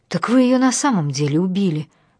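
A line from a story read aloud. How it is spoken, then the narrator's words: Shocked exclamation. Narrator (Russian): воскликнула, пораженная собственной догадкой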